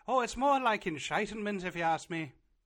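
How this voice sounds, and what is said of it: Bad put-on Irish accent. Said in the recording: “in an Irish accent ... That was a very bad Irish accent.”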